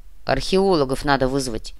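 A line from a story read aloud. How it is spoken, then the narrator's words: Deep solid bass. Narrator (Russian): неожиданно солидно пробасил он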